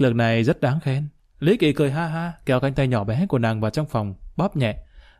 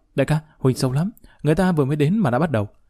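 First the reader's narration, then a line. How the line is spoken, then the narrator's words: Breathless, sharp tone. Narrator (Vietnamese): bị làm cho thở hổn hển, gắt giọng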